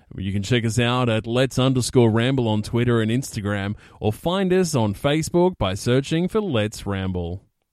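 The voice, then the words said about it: Put-on radio announcer voice. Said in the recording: “radio voice ... I'll do an impression of ... radio voice ... You do it”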